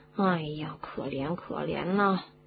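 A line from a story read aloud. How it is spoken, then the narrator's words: Muttering. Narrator (Chinese): 罗恩嘴里还嘟嘟囔囔的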